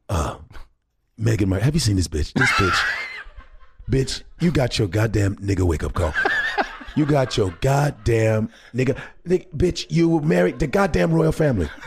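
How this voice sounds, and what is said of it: Paul Mooney impression. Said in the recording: “that's a good impression. It, you're Paul Mooney, you sound like him too, but you also are speaking the way ... he would ... your word choices for your Paul Mooney”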